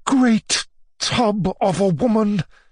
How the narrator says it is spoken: muttered Maria Alexandrovna through her teeth

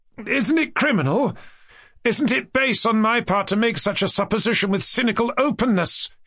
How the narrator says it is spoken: he cried, and a flush of shame instantly overspread his face

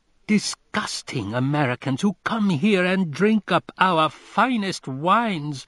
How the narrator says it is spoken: screamed Augustine with the voice of the commune

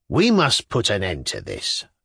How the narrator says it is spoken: Lambert said, even more irritably

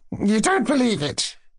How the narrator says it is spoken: Hippolyte laughed hysterically

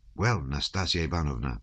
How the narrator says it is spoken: whispered the Count

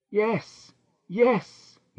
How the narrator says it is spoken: he cried

